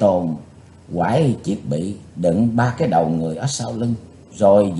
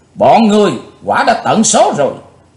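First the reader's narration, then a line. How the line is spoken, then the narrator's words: Hateful loud shout. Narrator (Vietnamese): Chí Tôn cháy phần lửa hận, chàng thét to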